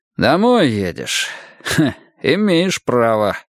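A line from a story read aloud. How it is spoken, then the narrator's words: Smirking grunt. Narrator (Russian): хмыкнул он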